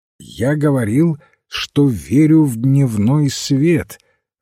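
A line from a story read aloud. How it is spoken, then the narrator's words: Loud and clear. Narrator (Russian): ответил священник громко и отчетливо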